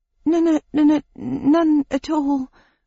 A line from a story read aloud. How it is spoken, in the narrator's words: groaned Carmine